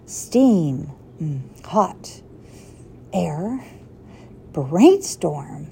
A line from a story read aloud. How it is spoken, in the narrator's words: He mumbled to himself